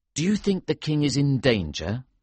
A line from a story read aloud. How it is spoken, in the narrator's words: I asked